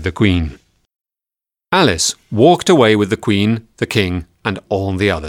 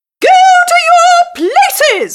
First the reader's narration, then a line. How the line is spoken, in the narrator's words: the Queen shouted